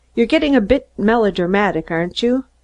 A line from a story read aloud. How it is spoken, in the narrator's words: Woods ... laughed easily and said